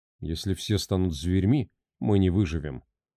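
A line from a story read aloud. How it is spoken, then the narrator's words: Quiet. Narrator (Russian): негромко произнес Карлос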